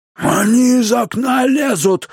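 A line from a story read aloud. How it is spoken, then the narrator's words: Yelling from below. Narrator (Russian): заорал дядя Абнер, стоявший внизу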